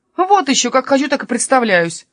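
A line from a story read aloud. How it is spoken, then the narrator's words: Snapping retort. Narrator (Russian): огрызнулся Каспер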